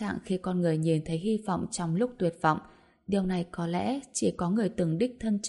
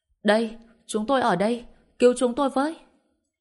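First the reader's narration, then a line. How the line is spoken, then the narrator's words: Loud shouting. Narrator (Vietnamese): vung vẩy quần áo trên tay và hét lớn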